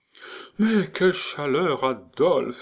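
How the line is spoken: Sighed. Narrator (French): soupira Céleste

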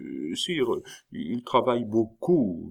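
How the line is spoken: Astonished cardinal stammering. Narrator (French): balbutia le cardinal, stupéfait lui-même

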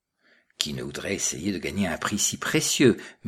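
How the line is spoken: Forced murmur. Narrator (French): murmura Annibal Pantalacci avec un sourire jaune

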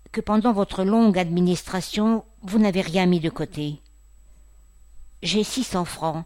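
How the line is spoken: Timid. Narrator (French): dit timidement Julien

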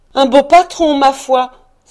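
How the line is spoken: Emotional exclamation. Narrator (French): s'écria Mistress Cratchit, rouge d'émotion

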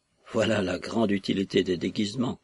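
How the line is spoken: Grumbled. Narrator (French): grommela Solomine

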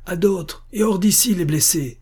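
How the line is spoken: Shouting. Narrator (French): crie le grand maréchal

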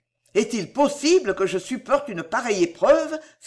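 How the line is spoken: Exclaimed. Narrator (French): s'écria Delville

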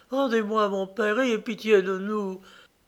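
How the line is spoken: Pleading child's voice. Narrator (French): l'enfant ajoutait d'une voix suppliante

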